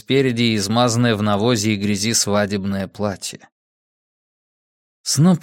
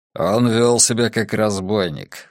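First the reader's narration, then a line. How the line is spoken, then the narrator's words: Snorting. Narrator (Russian): фыркнул Брус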